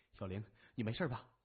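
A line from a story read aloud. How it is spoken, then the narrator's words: Young man, caring. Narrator (Chinese): 一名年轻的警察 关心地说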